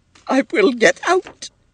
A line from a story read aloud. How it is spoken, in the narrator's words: she sobbed